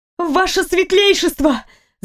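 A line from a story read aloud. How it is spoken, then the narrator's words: Shout at full strength. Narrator (Russian): закричала изо всех сил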